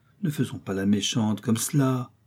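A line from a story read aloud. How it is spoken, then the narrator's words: Abrupt triumphant mockery. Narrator (French): Échangeant de ton brusquement, se démasquant d'un ton railleur, maintenant certain de la victoire, il reprit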